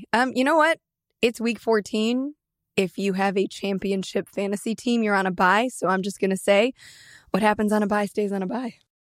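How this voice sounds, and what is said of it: Voice sounds off, not at full strength. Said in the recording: “It seems there's something wrong with your voice... your voice is a little less... Than 100%... A little different, yeah.”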